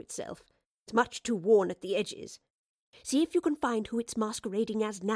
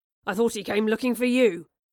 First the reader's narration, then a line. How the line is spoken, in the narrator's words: Charles grunted